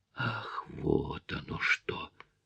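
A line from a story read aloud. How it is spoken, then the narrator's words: Stunned whisper. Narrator (Russian): только и смог прошептать я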